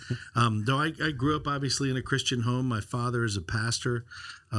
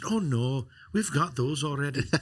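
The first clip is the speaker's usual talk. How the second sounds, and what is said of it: Bad put-on Irish accent. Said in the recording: “she's from Ireland, and so excuse the bad accent”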